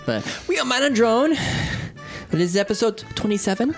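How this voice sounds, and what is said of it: Put-on, unidentified accent. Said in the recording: “What kind of accent is that?”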